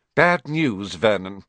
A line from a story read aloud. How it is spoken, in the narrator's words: she said